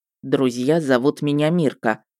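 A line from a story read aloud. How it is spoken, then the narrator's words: Plain. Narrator (Russian): ответил он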